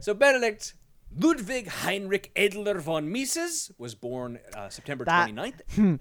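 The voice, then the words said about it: Exaggerated German accent. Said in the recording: “the increased Germanness of that accent”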